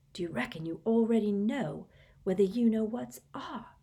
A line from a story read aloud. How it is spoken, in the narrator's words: he dropped his voice to a whisper